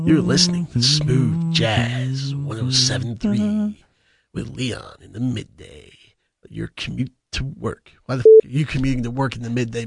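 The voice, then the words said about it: Creepy mock radio DJ voice. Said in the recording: “You sound terrible. ... That was disturbing voice. That wasn't smooth jazz voice.”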